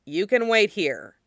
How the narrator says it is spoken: Jin San says gruffly

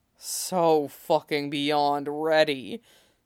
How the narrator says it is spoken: Jason groaned

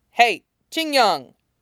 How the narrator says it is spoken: He snaps

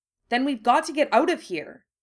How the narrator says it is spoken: Ginny exclaimed

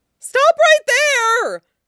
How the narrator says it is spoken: Nie Huaisang shrieked

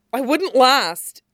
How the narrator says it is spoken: he blurts out

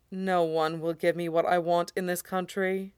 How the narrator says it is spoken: Roy says gloomily

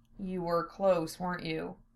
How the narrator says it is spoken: He asked in a low, soft voice, the gentlest tone he could muster

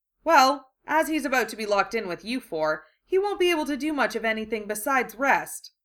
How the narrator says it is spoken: Tonks said cheerfully

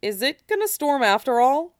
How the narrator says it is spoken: Cloud asked uneasily

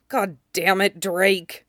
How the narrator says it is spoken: He sagged in defeat and muttered

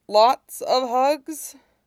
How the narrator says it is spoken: Iroh chuckled

